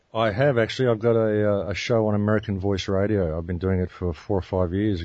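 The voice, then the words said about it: Deep Australian-accented radio voice. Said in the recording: “He's got the Aussie accent. He's got the deep pipes. He's got the perfect radio voice. ... Good pipes.”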